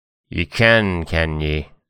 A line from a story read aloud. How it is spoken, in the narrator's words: snarled the wolf